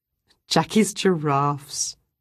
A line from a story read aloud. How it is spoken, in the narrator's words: Ruth said with a laugh